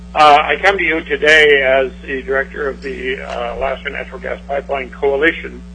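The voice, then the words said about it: Raspy voice. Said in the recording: “I have to apologize for my raspy voice.”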